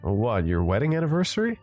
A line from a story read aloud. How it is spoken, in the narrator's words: giggled a little